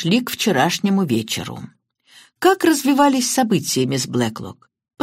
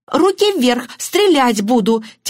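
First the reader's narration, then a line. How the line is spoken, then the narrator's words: Theatrical exclamation. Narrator (Russian): театрально воскликнула мисс Баннер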